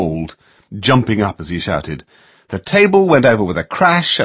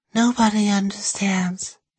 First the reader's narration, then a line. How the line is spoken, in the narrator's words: she said, staring mournfully